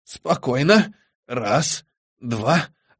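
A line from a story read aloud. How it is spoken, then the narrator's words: Old man whispering. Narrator (Russian): зашептал старик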